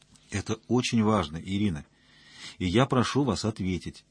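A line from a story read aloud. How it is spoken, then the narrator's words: Gentle but insistent. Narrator (Russian): мягко, но настойчиво произнес он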